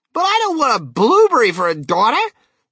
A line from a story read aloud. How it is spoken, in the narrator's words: yelled Mrs